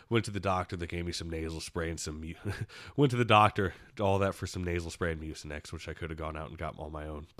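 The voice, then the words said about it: Raspy, congested voice with sniffling. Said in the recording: “if I sound kind of raspy ... you hear that, a lot of sniffling ... I've got a lot of congestion”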